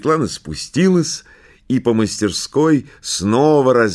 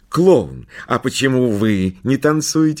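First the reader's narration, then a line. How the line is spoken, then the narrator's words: Plain. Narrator (Russian): спросила Светлана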